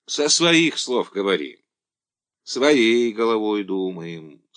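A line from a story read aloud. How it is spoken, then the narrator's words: Calm. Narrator (Russian): спокойно ответил Елизар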